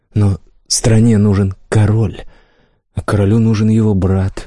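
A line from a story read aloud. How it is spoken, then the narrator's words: Soft, gentle. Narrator (Russian): мягко добавил Рай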